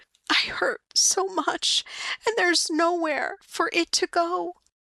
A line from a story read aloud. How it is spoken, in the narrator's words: says, her lower lip quavering